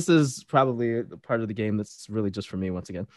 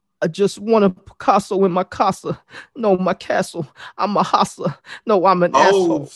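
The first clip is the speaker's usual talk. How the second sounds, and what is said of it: Impression of a recording artist. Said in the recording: “I'm just gonna do an impression, and I want you to tell me. Yeah, I want you to guess who it is.”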